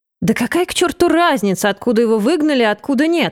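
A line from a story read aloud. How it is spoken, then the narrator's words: Exclaimed. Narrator (Russian): воскликнул шеф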